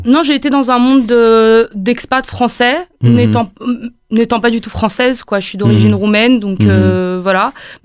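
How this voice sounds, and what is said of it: French-from-France accent, not Québécois. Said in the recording (French): “mon accent bien français et pas du tout québécois ... vous auriez pu prendre l'accent un peu québécois, mais pas du tout”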